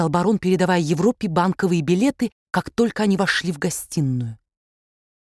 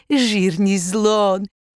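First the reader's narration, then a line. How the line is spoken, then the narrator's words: Laughing. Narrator (Russian): повторил он, смеясь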